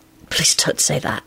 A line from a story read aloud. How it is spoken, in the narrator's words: he said hoarsely